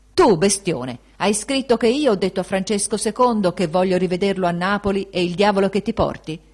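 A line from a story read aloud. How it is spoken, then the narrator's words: Shouting in face. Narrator (Italian): gli gridò sul muso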